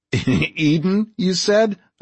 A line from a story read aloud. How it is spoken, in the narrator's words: I laughed